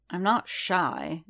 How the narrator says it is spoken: Din grumbled

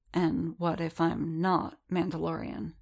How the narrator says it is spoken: Din murmured

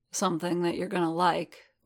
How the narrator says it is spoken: Bobo murmured

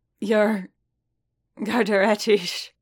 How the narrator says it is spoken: Boba said, still chuckling

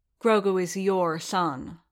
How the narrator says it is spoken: said Skywalker

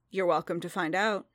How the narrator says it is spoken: Din said evenly

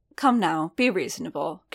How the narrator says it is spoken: Garrick said, almost gently

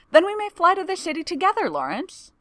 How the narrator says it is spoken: exclaims

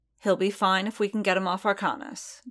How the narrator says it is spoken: Din said firmly

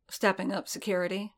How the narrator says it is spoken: Din murmured

